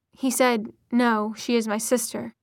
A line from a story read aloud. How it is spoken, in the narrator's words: said Jace